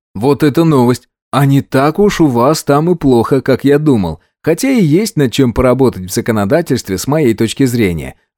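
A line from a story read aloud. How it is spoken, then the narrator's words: Cheerful. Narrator (Russian): радостно сообщил я ему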